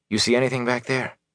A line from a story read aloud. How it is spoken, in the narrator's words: he asked quietly